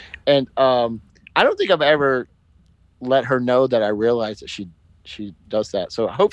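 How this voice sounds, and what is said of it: Usual voice. Nothing is said of it.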